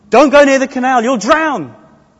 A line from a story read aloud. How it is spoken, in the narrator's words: a mother who sees a child walking towards a canal, yelling at the child